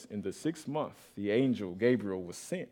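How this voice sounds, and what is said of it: Deep movie-trailer narrator voice. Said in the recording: “in my trailer voice... You hear that deep voice”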